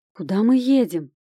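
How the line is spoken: Sudden frightened question. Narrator (Russian): вдруг испуганно спросила Катька

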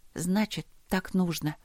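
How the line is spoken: Muttered. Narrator (Russian): пробормотала я

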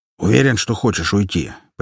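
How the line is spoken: Big man, upset voice. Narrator (Russian): поинтересовался здоровяк расстроенным голосом

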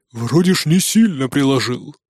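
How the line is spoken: Surprised deep voice. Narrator (Russian): удивленно пробасил Нуки

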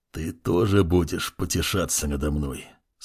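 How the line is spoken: Question through gritted teeth. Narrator (Russian): спросил он сквозь зубы

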